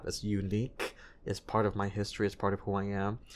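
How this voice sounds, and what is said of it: Slight foreign accent in English. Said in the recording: “you can hear like a hint of something in the way I speak English”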